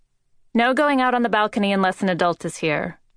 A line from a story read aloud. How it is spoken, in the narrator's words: Liv said